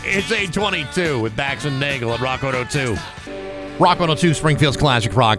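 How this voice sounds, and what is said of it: Out of breath. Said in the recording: “Whew, I'm out of breath, man. I'm getting too old for this stuff.”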